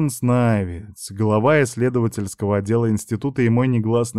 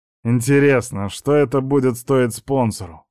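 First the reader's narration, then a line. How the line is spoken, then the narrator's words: Angry smirk. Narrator (Russian): зло усмехнулся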